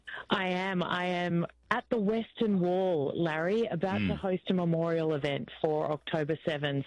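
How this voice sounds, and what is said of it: Distinctive Australian accent. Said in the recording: “I can't quite pick up the accent. ... it's very distinctive ... Australia is the New Jersey of the Southern Hemisphere”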